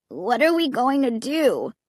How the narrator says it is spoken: Clay asked, whining

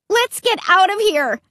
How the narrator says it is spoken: I shouted

